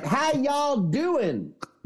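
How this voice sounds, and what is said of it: Fake Southern Bayou accent. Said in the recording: “a fake Bayou fucking Chip Kelly ... with his fake accent.”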